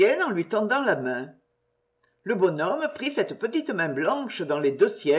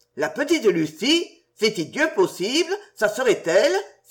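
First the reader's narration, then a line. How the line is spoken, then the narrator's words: Exclaimed with softened emotion. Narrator (French): s'écria-t-il, tandis qu'une véritable émotion adoucissait l'expression de son visage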